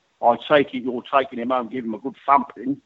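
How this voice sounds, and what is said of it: Put-on Cockney accent. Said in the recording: “forgive my Cockney impersonation”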